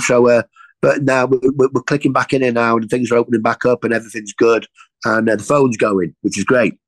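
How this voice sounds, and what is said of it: Regional accent, speaks quickly. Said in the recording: “I hope everybody understands my accent ... Sometimes I do speak a little bit quick”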